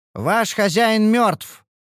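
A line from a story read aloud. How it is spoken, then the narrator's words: Loud announcement. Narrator (Russian): объявила она громко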